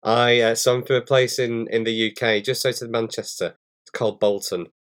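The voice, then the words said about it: Northern English accent. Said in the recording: “has a little bit of a different accent than I do ... I've got a real northern accent, which is not like the Queen's English”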